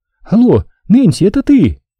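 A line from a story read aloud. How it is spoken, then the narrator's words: Frightened shout. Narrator (Russian): Гарриет испуганно крикнула в нее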